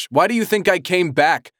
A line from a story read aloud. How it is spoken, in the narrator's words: Trent said, raising his voice over the rough engine